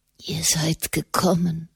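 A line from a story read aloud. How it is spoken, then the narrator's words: Whisper. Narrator (German): flüsterte er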